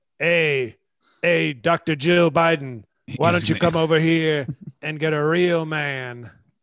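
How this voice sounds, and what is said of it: B.A. Baracus impression. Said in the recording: “You're going to do it in that voice too? ... that was a B.A. Baracus that I was impersonating”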